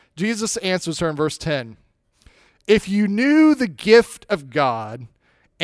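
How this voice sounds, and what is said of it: Usual voice. Nothing is said of it.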